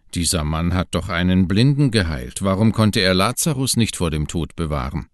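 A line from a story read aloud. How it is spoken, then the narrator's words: Mocking voices. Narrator (German): sagten spöttisch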